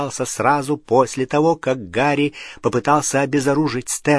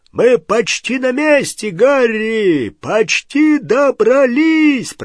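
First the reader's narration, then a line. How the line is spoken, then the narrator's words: Shouting. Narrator (Russian): прокричал Хагрид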